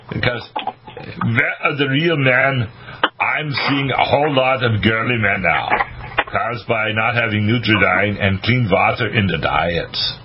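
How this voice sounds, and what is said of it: Arnold Schwarzenegger impression. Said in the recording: “Arnold Schwarzenegger ... That's a good impression.”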